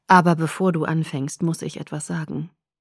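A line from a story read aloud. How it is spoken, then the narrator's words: Quiet. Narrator (German): sagte Edward leise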